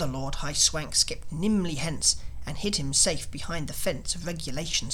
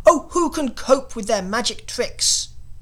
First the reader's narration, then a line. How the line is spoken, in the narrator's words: roared the king with a rage intense